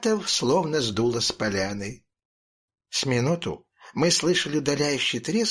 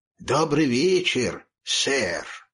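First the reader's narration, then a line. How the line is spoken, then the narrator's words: Hoarse bass babble. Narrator (Russian): Пролепетал он снова хриплым басом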